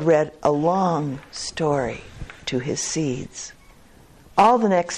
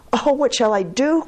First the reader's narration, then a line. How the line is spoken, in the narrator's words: cried Toad